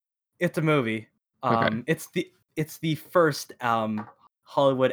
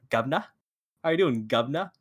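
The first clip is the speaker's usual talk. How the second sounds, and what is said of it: Exaggerated fake British accent. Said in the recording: “Americans doing British accents, because there's no way they talk like this ... to put on a British accent, they went”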